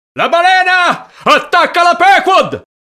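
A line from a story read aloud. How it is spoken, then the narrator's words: Terrified sailors shouting. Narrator (Italian): gridarono i marinai atterriti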